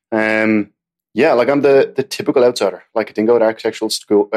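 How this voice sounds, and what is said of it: Irish accent. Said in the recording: “I can hear it in your accent ... I'm Irish”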